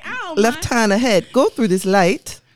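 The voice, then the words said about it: Poor put-on British accent. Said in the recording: “my Maps is like a British man ... My British accent is fucking terrible”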